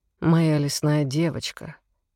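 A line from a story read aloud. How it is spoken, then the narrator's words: Soft, soothing, coaxing. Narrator (Russian): повторяю я тем же вкрадчивым мягким тоном, который ее успокоил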